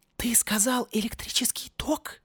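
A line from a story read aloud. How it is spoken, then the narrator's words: Whispered. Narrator (Russian): прошептал Кряка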